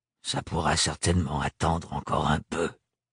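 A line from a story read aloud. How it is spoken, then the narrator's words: Muttered through teeth. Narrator (French): marmonna Thorne entre ses dents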